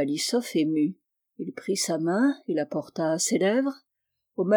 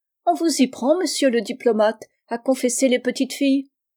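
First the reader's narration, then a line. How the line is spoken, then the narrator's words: Shrill exclamation. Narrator (French): s'écria du haut de sa voix pointue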